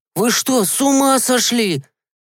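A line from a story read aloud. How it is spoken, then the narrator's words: Yelled in panic. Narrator (Russian): завопил он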